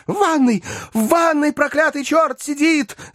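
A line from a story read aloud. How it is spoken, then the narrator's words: Breathless scream. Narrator (Russian): задыхаясь, закричала Зина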